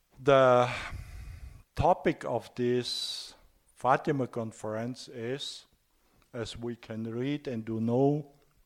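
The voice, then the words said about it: Strong German accent in English. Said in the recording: “a German with a strange German accent ... with his weak English”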